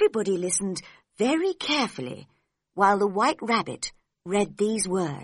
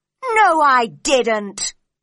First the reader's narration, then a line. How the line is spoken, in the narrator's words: said the Knave loudly